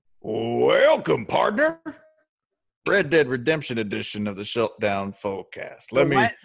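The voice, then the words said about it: Put-on Western cowboy accent. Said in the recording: “Are you gonna mock my regional accent, partner? ... Is that a fella from New York City trying to tell us how to talk?”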